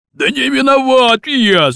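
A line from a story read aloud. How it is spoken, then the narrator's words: Shouting. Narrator (Russian): закричал батон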